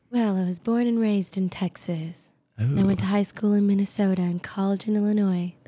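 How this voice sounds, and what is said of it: Polished radio announcer voice. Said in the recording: “That's my radio voice ... that was very good radio voice”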